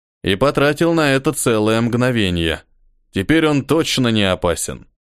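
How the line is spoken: Snorting. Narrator (Russian): хмыкнул Хриса

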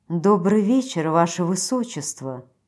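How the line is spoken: Purring. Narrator (Russian): промурлыкала

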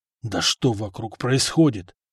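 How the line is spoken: Grumbling. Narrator (Russian): заворчал Горан

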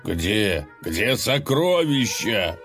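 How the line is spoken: Desperate shout. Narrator (Russian): в отчаянии закричал Колыван

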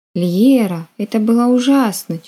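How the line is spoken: Heavy sigh. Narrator (Russian): тяжело вздохнула Мари

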